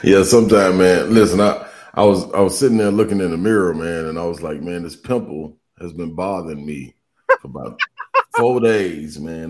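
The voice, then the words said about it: Unusually deep voice. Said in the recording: “You got the deep voice.”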